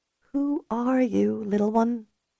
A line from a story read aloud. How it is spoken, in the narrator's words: Ellie whispered, feeling that weight of responsibility again